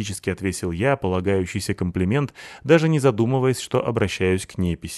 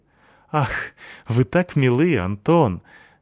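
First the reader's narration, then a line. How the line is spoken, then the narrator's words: Warm laughing. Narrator (Russian): засмеялась она приятным, теплым смехом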